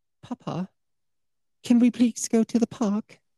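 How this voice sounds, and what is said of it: Child-like British accent. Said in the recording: “a kid with a British accent”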